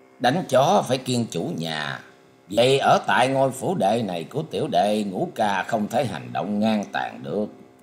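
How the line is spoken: Smiling prince. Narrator (Vietnamese): Thập thất hoàng tử ... mỉm cười nói

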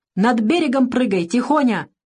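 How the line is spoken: Shout. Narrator (Russian): крикнул он

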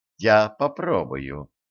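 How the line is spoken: Gloomy. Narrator (Russian): мрачно сказала Стесси

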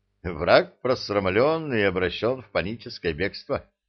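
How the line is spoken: Laughing. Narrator (Russian): рассмеялся Молотков

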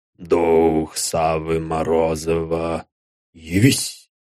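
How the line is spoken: Barely audible. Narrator (Russian): Едва слышно, он вымолвил

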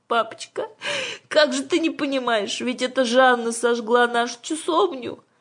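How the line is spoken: Sobbing. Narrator (Russian): рыдая проговорила Аннушка

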